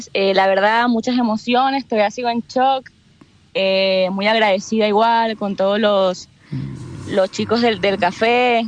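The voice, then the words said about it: Venezuelan Spanish accent. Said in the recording (Spanish): “acento, me doy cuenta que no eres chilena ... ¿Qué, eres venezolana? ... Me sonó el acento ... Bastante distintivo.”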